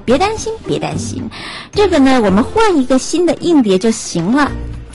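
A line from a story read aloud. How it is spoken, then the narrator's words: Laughing. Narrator (Chinese): 怀特太太笑着跟妻子说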